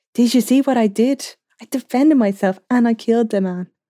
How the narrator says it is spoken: Logue said excitedly

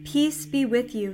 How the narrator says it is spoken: he says

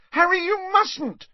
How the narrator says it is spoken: shrieked Hermione, as Mundungus started to turn blue

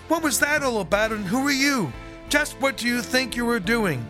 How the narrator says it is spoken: shouting

